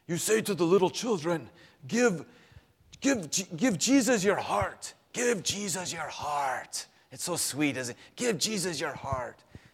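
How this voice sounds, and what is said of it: Imitated thick Dutch accent. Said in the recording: “a 7-foot Dutch man ... spoke in this thick Dutch accent”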